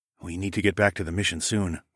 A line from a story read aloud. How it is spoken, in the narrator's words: I murmured